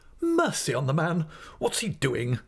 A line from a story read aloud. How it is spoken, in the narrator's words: cried my aunt impatiently